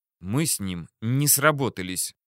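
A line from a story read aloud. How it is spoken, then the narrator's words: Through gritted teeth. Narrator (Russian): процедила Журбина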